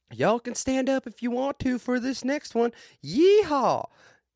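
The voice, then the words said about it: Imitated southern accent. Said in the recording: “She had a southern accent, too.”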